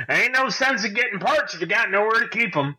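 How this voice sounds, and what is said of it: Put-on southern accent. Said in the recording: “I don't know why he has that accent now ... he's getting a southern accent”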